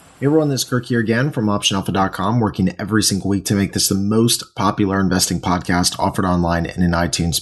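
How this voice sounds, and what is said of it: Slightly raspy voice. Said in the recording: “my voice is a little raspy because I'm just getting over a cold”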